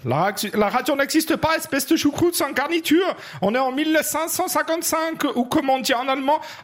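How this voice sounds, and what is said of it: Put-on German accent in French. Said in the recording (French): “accent germanique ... ce magnifique accent teutonique du sud de notre beau Saint-Empire romain germanique ... toi qui le fais”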